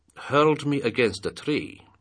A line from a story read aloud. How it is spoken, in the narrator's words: said the general